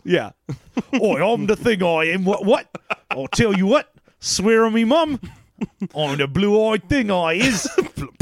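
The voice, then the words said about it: Put-on British accent. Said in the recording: “It just gets more British.”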